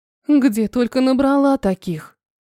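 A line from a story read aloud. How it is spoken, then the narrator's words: Sigh. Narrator (Russian): вздохнула я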